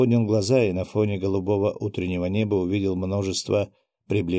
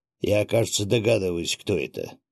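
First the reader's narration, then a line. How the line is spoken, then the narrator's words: Displeased grumble. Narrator (Russian): недовольно проворчал Виктор Харитонович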